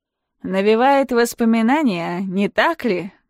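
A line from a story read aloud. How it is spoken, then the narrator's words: Mocking question. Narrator (Russian): насмешливо спрашивает Сергей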